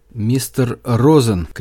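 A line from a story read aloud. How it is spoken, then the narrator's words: Shouting. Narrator (Russian): крикнул я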